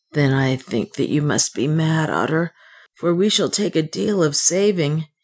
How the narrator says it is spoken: he answered wearily, for he had ceased to believe in good fortune

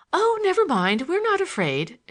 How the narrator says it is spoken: she exclaimed

